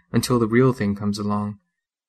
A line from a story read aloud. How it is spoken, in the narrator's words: my mother softly singing